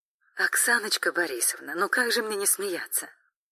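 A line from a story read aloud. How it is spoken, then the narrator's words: Carefree giggling explanation. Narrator (Russian): Арина легкомысленно хихикнула и безмятежно пояснила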